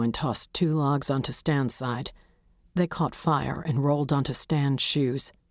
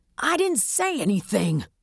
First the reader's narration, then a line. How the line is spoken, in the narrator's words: Stan yelled, knowing he wouldn't survive many more logs